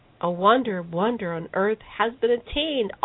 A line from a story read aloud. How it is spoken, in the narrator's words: all the assembled shouted